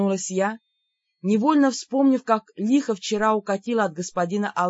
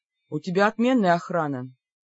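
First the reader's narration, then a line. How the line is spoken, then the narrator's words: Wry snort. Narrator (Russian): хмыкнул маг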